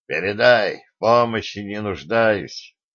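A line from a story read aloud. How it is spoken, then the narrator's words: Gloomy. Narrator (Russian): мрачно сказал сигнальщику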